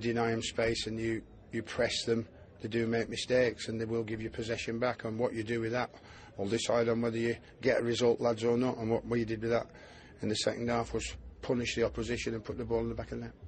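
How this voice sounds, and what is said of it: Sam Allardyce impression, Midlands-northern accent. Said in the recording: “Big Sam ... a broad Midlands accent that's got a bit of a northern accent”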